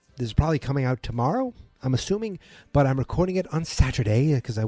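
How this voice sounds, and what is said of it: Boston accent. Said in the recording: “with my Boston accent”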